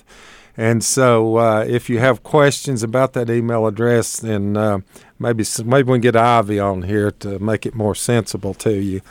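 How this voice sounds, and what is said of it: Hillbilly regional accent. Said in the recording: “I am a hillbilly, so my accent sometimes not picked up by some people that are foreigners from here, like up north”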